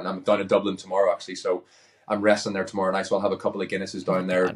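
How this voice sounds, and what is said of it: Irish accent. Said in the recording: “I'm proud to be Irish ... my accent”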